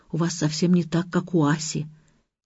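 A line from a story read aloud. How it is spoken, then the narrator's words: Embarrassed whisper. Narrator (Russian): Илья смущенно прошептал Зине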